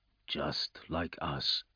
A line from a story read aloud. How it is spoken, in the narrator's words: murmured